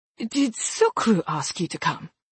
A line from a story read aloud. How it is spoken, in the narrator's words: Davood asked